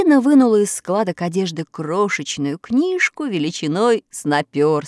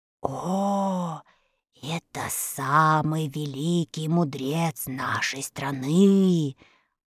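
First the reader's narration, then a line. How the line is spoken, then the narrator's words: Old woman whispering. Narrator (Russian): прошептала старушка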